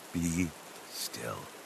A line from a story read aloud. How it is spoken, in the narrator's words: the whisper of God over your heart